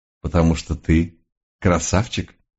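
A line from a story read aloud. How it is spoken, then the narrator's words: Pleased snort. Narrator (Russian): довольно хмыкнул месье Ренар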